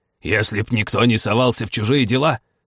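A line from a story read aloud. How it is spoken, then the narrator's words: Hoarse bass voice. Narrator (Russian): сказала хриплым басом герцогиня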